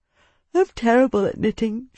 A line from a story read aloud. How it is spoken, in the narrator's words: she replied with a yawn